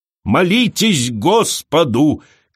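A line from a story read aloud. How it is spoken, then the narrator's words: Shouting. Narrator (Russian): кричала она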